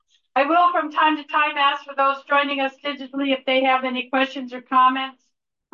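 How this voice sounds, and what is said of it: Loud projecting teacher voice. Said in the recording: “we all have to speak up ... I'll use my teacher voice.”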